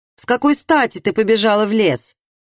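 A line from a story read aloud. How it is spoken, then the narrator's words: Barking sharply. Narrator (Russian): рявкнул он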